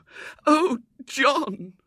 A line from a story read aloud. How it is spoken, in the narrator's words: wailed Mrs